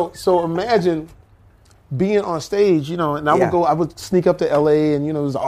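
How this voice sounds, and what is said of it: Usual voice. Nothing is said of it.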